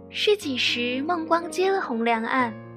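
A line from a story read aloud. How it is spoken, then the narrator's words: Beaming, bookish tone. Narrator (Chinese): 笑逐颜开，拽文说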